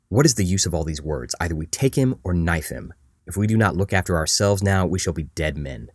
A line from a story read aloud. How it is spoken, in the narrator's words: One of the conquistadors, who's looking out for Moctezuma's guards, angrily whispers